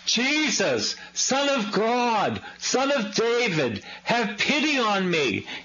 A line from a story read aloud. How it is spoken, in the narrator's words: he shouted